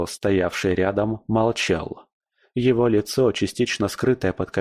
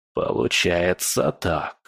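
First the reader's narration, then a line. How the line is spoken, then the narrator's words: Hoarse grating voice. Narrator (Russian): сказал он, и голос его прозвучал хрипло, словно скрежет металла о камень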